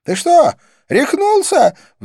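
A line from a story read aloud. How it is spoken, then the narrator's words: Astonished shriek. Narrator (Russian): взвизгнула она, изумленно тараща глаза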